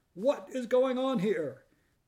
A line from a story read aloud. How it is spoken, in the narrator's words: still another voice, charged with fury, shout